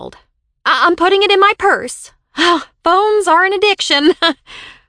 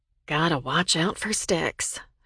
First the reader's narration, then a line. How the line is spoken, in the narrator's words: she said quietly